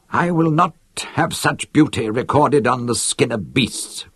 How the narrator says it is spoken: cried Lennon, with the tears cutting runnels through the dust on his cheeks and pouring into his beard

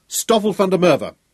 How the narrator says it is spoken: he cried

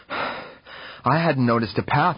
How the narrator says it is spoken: I replied, panting

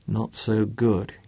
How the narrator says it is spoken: he muttered

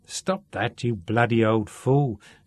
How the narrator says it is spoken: said Shaun irritably

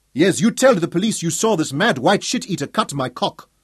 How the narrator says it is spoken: Gomo shouted

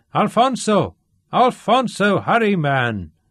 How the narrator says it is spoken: he bellowed

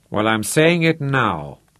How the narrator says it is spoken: Rod told him grimly

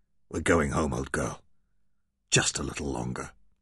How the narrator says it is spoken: the vestiges of rage were still with Michael, and he murmured stubbornly

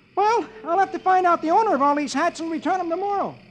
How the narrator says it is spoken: Dagwood exclaims

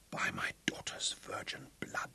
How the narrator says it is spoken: whispered again

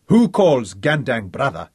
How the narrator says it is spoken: he demanded in a clear, firm voice

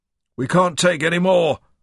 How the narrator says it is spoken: a commanding voice shouted

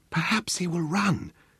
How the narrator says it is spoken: whispered Sebastian

